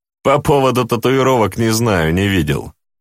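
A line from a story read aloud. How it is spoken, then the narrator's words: Plain. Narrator (Russian): ответил Иллюзио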